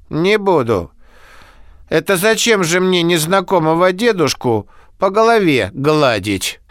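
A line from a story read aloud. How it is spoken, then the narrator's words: Sighing. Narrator (Russian): Оксана вздохнула, сказала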